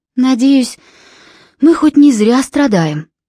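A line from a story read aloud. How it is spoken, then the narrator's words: Sighing. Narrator (Russian): вздохнула Филиппа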